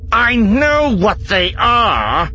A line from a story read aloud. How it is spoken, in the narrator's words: growled